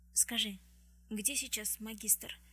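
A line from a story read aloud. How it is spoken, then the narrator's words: Trembling voice. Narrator (Russian): начала она дрожащим голосом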